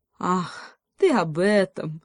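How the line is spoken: Eagle laughing heartily. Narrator (Russian): расхохотался орел

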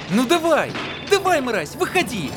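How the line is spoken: Aggressive yell. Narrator (Russian): Завопил парень

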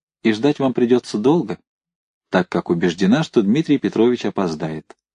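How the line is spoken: Quiet smirking female voice. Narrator (Russian): она, усмехнувшись, негромко добавила

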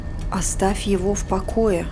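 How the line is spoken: Muttered to herself. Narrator (Russian): пробормотала она себе

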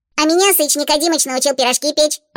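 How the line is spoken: Joyful squeak. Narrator (Russian): радостно пискнула чата

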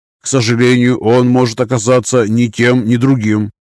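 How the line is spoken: Plain. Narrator (Russian): сказал агент Джонсон

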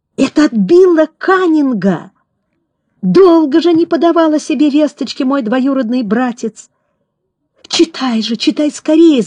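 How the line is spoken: Joyful exclamation. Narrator (Russian): фермер радостно воскликнул

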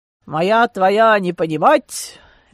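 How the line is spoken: Malicious chuckle. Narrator (Russian): Дитрих хохотнул, зло блеснув глазами

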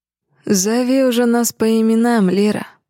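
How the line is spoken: Purring voice. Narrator (Russian): Мурлыкает Дэмиан

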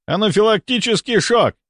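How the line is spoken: Yelling. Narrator (Russian): заорал Мельников, увидев Лилию

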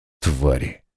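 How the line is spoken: Muttered. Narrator (Russian): пробормотал читер

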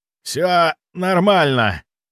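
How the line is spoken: Hoarse rasp. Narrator (Russian): прохрипел

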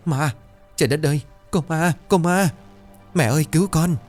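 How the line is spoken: Terrified screaming. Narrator (Vietnamese): hai kẻ này chân tay run rẩy kịch liệt, miệng cứng nhắc rồi hét ầm lên

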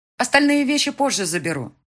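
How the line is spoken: Shout into the apartment. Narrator (Russian): крикнула я вглубь квартиры

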